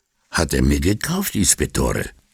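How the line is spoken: Husky, carefully stressed last word. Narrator (German): sagte Bambola mit belegter Stimme und mit sorgfältiger Betonung auf dem letzten Wort

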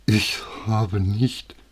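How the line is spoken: Stammering. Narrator (German): stammelte sie

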